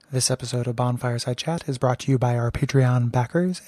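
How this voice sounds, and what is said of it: Mock public radio announcer voice. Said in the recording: “my NPR voice”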